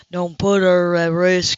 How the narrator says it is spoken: he said solemnly

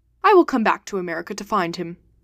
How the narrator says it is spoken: said Phileas Fogg calmly

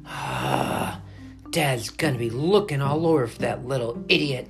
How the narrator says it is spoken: he sighed

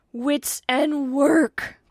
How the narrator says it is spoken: cried the indignant godson

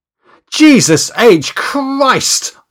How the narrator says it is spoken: spluttered as I abruptly regained full consciousness

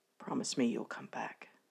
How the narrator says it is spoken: murmuring softly

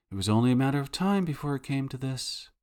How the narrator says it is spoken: Stoffregen says in a quiet, rueful tone

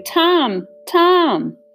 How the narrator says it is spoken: Hester called back, shouting

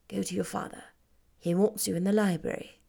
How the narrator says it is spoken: said in a whisper

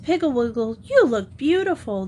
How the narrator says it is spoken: the girls exclaimed

